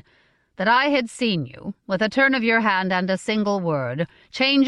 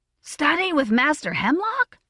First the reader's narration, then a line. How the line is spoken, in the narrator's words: said Diamond, his voice up half an octave